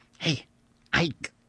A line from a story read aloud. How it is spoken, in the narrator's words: I whispered